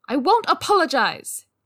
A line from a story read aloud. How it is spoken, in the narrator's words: Jinling exclaimed